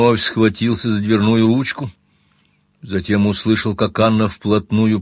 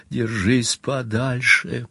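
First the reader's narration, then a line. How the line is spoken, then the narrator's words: Low croaking whisper. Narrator (Russian): Низким, каркающим, едва узнаваемым голосом она прошептала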